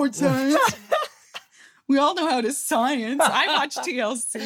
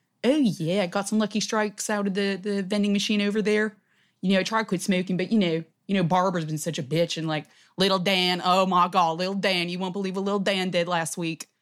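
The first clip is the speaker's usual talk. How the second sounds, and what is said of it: Put-on Philadelphia accent. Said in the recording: “This is Philadelphia accent.”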